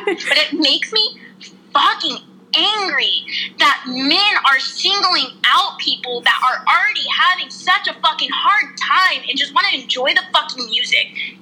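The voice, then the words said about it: Raised, angry loud voice. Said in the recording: “I'm raising my voice. I notice I raise my voice a lot”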